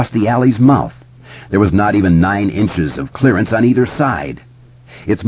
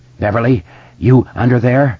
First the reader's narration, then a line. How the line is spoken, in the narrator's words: Each word separated from the last by an out-of-breath gasp for air